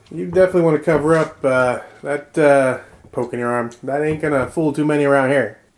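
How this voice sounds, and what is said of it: Put-on character accent. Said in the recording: “My accent's slipping a little bit.”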